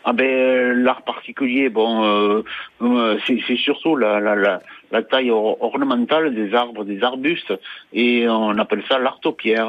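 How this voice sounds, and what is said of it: Southern French Roussillon accent. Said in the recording (French): “on l'entend dans votre accent charmant ... c'est dans le Roussillon”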